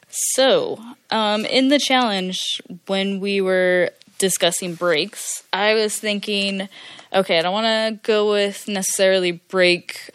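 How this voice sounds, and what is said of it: Her usual American accent. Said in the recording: “Regular accent from Dirtbag America”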